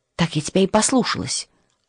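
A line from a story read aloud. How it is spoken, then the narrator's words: Whispered snap. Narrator (Russian): огрызнулась шепотом Матильда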